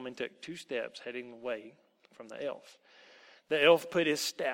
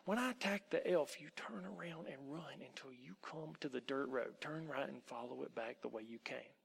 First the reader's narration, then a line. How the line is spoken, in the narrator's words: whispered in the boy's ear